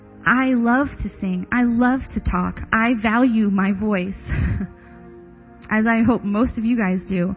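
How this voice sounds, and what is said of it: Hoarse, partly lost voice. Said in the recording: “losing my voice ... It is the only symptom that I have.”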